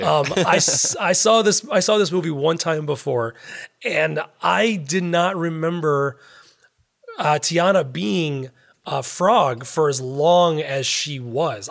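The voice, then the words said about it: Hoarse, failing voice. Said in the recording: “I'm really losing my voice”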